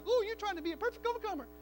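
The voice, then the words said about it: Impression of another person's voice. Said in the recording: “that's a pretty good impersonation”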